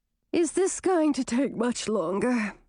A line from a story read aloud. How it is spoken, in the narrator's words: Chartreuse asked, stifling a yawn